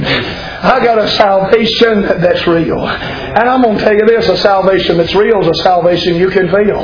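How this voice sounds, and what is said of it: Shouting preacher. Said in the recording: “I'm shouting”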